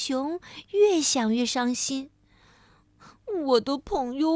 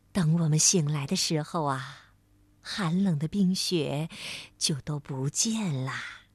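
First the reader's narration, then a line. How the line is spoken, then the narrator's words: Gentle mother. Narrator (Chinese): 熊妈妈温柔地说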